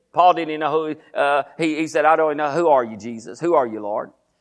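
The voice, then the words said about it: Talking very fast. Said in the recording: “I know I'm talking fast. I don't know why I'm talking so fast. I always talk fast.”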